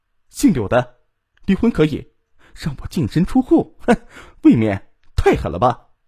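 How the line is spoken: Angry. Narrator (Chinese): 他不由愤怒的说

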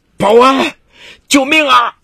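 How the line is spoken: Loud cry for help. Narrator (Chinese): 岳勇开始大声呼喊

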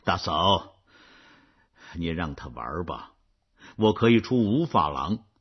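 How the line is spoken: Smiling. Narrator (Chinese): 冉阿让带着笑容说

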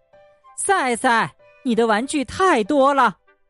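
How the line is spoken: Exasperated mother shouting. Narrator (Chinese): 赛赛的妈妈忍无可忍了，她一边上楼一边喊

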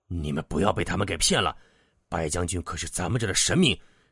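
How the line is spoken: Loud voice. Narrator (Chinese): 有人站出来大声说道

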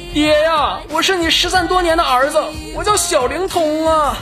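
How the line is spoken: Loud shout. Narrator (Chinese): 高手对着方丈大声喊道

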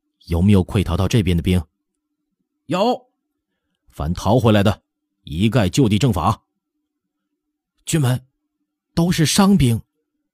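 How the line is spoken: Stern, harsh. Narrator (Chinese): 厉声说道

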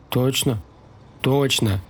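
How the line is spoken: Heavy sigh. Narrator (Russian): тяжело вздохнул Ростислав

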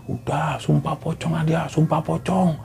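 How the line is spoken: People shouting. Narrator (Indonesian): ada orang-orang yang teriak

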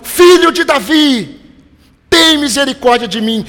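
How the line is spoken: Louder shout. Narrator (Portuguese): ele gritou mais alto

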